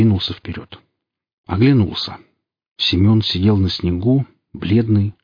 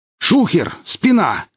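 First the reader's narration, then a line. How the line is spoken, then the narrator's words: Exclaimed. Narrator (Russian): воскликнул босс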